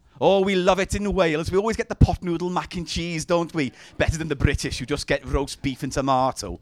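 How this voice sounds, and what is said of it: Put-on Welsh accent. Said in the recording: “Good accent”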